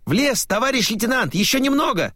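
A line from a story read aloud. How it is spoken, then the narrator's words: Ringing shout. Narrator (Russian): звонко выкрикнул Вербин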